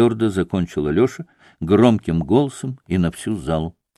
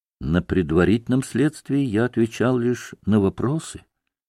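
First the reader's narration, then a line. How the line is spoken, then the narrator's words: Quiet and calm. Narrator (Russian): тихо и спокойно проговорил Алеша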